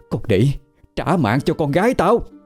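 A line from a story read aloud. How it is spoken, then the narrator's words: Distant screaming woman. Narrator (Vietnamese): Ở bên ngoài, giọng của bà Liễu lại gào thét lên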